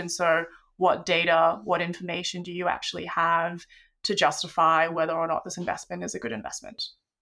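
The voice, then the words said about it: Australian accent. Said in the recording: “You are Australian, as you can tell by the accent”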